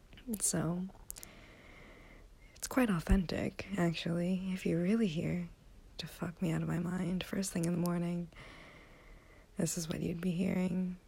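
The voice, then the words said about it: Low, throaty just-woke-up voice. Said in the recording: “my voice is in the back of my throat like this is because I just woke up ... this low register”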